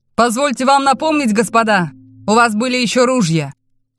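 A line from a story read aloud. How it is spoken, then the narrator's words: Shouted. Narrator (Russian): крикнул Тэ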